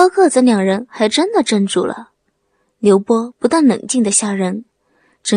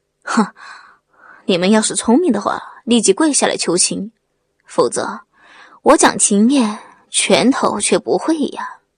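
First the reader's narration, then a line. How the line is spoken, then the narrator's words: Sneering cold laugh. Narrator (Chinese): 刘波 冷笑地说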